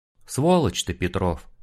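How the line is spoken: Weary. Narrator (Russian): устало говорит Олег

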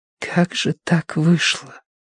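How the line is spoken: Whispered. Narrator (Russian): прошептала Киеврин

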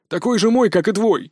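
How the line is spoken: Exclaimed. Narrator (Russian): воскликнул Пак Богом

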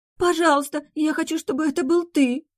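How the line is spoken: Frightened, petulant interruption. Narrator (Russian): перебила она испуганно и капризно одновременно

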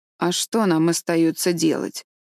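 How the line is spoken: Rather gloomy, inwardly relieved. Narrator (Russian): довольно мрачно проговорила Марила, хотя на душе у нее полегчало

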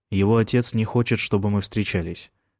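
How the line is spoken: Calm. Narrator (Russian): спокойно сказал Майкл

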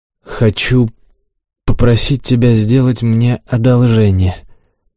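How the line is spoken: Slightly hesitant. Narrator (Russian): немного неуверенно начал он

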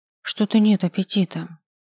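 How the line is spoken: Sighing. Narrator (Russian): вздохнула я

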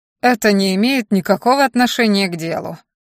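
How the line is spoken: Cold. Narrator (Russian): холодно заявил мне один из жандармов

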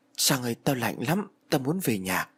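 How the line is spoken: Stammering, sickly fearful. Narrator (Vietnamese): Thằng Thiết mặt tái nhợt như người bệnh lắp bắp bảo

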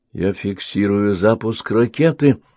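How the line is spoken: Excited whisper. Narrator (Russian): взволнованно прошептал оператор гидролокатора

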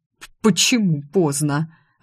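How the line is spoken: Stammering. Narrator (Russian): От моих утешений министрель стал заикаться

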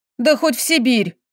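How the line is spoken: Snapping, reproachful. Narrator (Russian): огрызнулась она, тут же упрекнув

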